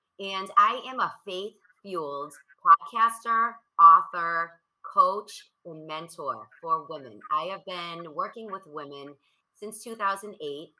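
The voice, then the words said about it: Boston accent. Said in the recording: “I am from Boston ... You can probably hear from my accent where I'm from.”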